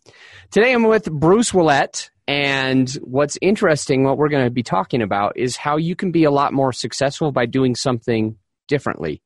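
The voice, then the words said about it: Strained, worn-out voice. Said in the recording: “my voice is going... I had two coaching calls and six podcasts yesterday, and my voice is feeling it”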